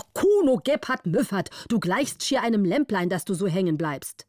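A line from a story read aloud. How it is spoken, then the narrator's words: Angry shout. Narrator (German): war zornig und rief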